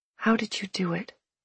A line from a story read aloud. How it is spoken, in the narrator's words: I whispered